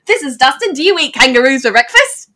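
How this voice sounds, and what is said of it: Good put-on Australian accent. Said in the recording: “you have a good Australian accent.”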